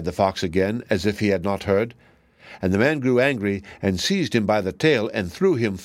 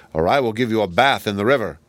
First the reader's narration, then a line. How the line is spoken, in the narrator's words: answered the man crossly